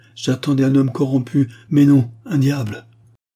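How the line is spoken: Exclaimed. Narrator (French): s'écria-t-elle

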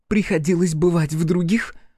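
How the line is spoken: Snapped. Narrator (Russian): огрызнулась Карифа

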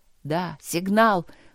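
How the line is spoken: Breathless. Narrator (Russian): выдохнул Трот

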